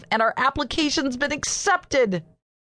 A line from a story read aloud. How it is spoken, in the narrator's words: blurted out, unable to stop myself